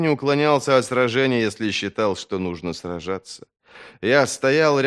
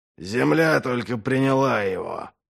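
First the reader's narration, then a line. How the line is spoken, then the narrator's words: Hiss. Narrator (Russian): прошипел Доу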